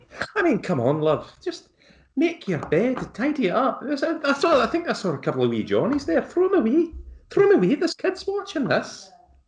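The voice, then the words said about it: Fairly solid Scottish accent impression. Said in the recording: “That's exactly what Lorraine Kelly would say ... a Scottish accent ... Critics would say that neither can I, but what I can do is a fairly solid Lorraine Kelly ... Solid. Pretty solid.”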